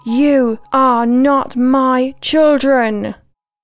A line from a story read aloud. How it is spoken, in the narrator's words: gathered all the strength I had in me and screamed